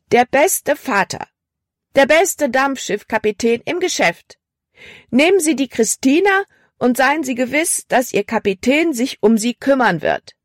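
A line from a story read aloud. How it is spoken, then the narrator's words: Loud call. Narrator (German): rief sie laut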